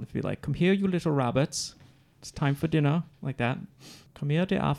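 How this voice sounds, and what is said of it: Put-on English accent. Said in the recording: “if they said it in an English accent, how that would sound”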